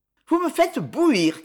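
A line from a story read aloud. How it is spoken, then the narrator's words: Shout. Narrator (French): cria-t-elle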